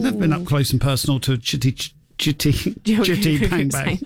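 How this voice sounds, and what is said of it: Usual voice. Nothing is said of it.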